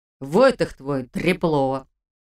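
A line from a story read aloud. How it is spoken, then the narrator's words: Grumbling man. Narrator (Russian): проворчал он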